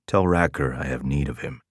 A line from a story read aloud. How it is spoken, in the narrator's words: he murmured, loud enough for the men to hear